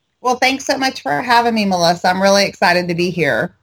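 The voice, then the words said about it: Texan drawl. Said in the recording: “you have a little bit of a drawl ... us Texans”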